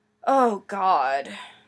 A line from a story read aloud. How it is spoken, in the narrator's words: Stiles groaned